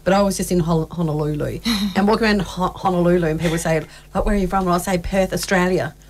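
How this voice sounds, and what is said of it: Australian accent. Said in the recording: “I never notice my accent when I'm here, obviously, in Australia”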